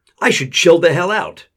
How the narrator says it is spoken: she shouted

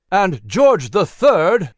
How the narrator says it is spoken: he thundered with fiery eyes

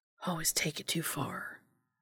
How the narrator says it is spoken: he whispered to himself

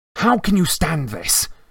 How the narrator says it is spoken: He asked Hermione fiercely

